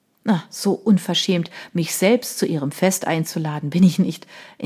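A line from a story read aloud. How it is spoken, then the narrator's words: Laughing reply. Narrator (German): entgegnete er lachend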